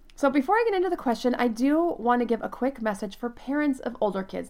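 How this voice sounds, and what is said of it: Voice affected by a cold. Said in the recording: “I've been a bit under the weather ... my voice was very affected last week ... now you can probably hear it in my voice a little bit”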